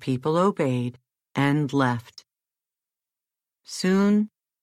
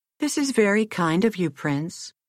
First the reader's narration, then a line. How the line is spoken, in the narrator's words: said the princess at last, quite coolly